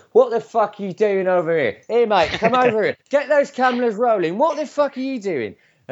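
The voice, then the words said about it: Put-on Cockney accent. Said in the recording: “in my Cockney accent”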